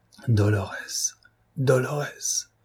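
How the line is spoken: Despairing murmur. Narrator (French): murmura-t-il avec désespoir

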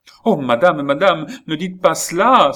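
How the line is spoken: Exclaimed. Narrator (French): s'écria Lorenza

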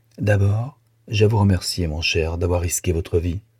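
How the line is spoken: Grave tone. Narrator (French): Et d'un ton grave

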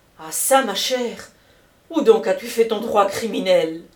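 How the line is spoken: Exclaimed. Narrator (French): s'écria Camusot

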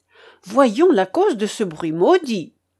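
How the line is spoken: Exclamation. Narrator (French): s'écria Front de Bœuf

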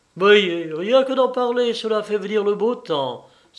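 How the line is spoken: Happy exclamation. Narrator (French): s'écria-t-il avec un geste de bonheur

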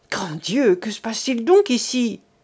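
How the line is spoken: Young woman crying out, distant. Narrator (French): s'écria de l'autre côté du massif une voix que le jeune homme reconnut être celle de la jeune fille

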